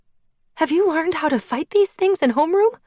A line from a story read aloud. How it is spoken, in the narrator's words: I asked Blake, my voice rising in panic